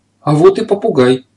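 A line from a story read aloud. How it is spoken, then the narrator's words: Exclamation. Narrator (Russian): воскликнула хозяйка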